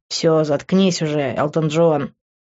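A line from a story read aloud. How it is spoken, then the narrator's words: Displeased mutter. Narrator (Russian): недовольно пробурчало мое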